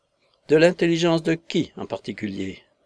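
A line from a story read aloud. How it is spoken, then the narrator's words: Cold question. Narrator (French): demanda froidement Tobermory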